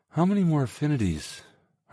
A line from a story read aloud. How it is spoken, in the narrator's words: Hermona sighed